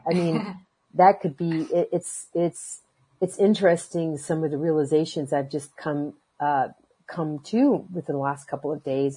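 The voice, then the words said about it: Hoarse, fading voice. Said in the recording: “I'm losing my voice again”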